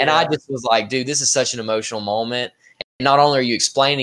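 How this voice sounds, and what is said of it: Usual voice. Nothing is said of it.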